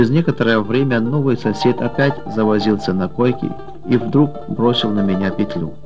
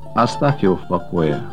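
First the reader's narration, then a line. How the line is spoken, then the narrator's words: Plain. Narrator (Russian): ответил дежурный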